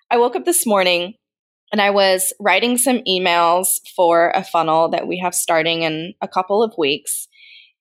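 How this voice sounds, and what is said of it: Slightly congested, different-sounding voice. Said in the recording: “I'm battling a little cold. So if I sound a little different,”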